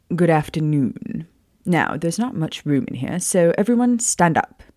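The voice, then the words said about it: Put-on British accent. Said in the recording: “Yes, I'm doing a British accent for the first time. Ah. Well, kind of.”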